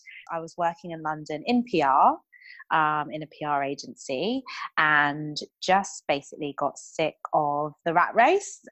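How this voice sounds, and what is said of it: British accent. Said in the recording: “as you might be able to tell from my accent, originally British.”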